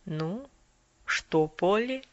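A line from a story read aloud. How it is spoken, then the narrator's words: Soft quiet question. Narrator (Russian): доктор тихонько произнес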